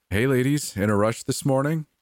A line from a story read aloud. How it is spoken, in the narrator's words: he laughs